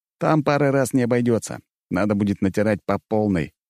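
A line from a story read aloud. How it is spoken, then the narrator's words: Snorting. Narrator (Russian): хмыкнул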